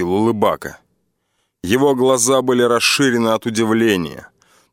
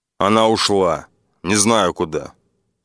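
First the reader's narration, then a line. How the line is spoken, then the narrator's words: Calm. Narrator (Russian): спокойно сказал я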